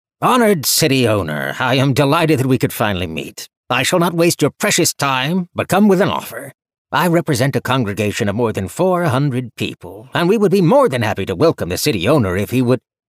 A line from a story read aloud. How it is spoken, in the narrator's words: the newcomer, who loudly exclaimed